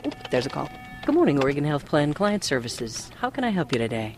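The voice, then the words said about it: Smooth radio announcer voice. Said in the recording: “her smooth radio voice”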